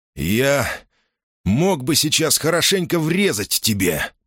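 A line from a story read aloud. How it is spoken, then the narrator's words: Hoarse wheeze. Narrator (Russian): прохрипел Марк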